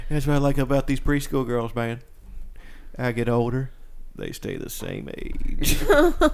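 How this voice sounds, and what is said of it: Matthew McConaughey impression. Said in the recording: “Matthew McConaughey impression... That's pretty good.”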